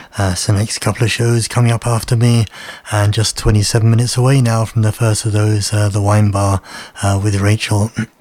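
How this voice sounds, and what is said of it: Hoarse, croaky throat. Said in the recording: “I've got a frog in my throat”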